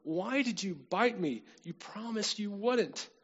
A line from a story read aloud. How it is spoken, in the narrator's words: the cowboy exclaimed